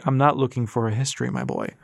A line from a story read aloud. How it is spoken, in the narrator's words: Hal said with a chuckle